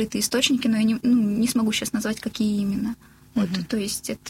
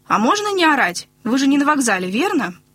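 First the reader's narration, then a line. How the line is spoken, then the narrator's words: Angry question. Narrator (Russian): спросила зло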